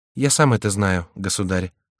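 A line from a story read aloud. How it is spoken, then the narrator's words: Calm young man. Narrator (Russian): спокойно отвечал молодой человек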